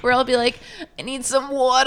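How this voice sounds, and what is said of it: Whiny baby voice, Boston/Brooklyn accent. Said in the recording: “baby voice ... when I'm like asking for a favor or I'm whining about something and I use this like weird Boston / Jersey / Brooklyn accent ... it sounds like Matt Damon in, like, The Departed”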